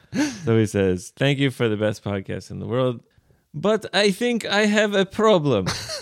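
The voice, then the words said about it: Put-on Russian accent. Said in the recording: “Should I do the Russian accent? ... Let me do just a little bit.”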